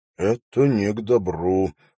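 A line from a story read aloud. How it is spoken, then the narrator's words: Muttered from behind. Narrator (Russian): пробормотал позади него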